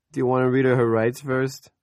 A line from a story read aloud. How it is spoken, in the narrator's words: Mel asked and laughed